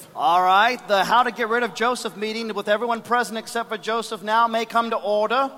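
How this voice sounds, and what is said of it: Put-on British accent. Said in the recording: “Why are you talking with a British accent? ... Because everybody in the Bible talks with a British accent.”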